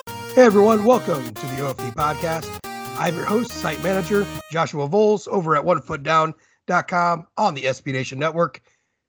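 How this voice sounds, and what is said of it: Raspy, hoarse voice. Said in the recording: “You sound like you're losing your voice again. ... I'm just a raspy old man. ... It sounds raspier than usual.”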